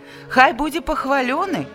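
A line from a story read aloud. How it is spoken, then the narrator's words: Powerful chorus shouting. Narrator (Belarusian): магутным хорам выгукнулі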